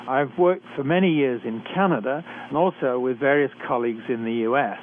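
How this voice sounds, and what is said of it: British accent. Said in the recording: “I was trained in Britain, as I'm sure you can tell from my accent.”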